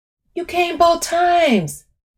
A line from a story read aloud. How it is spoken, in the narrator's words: Brian exclaims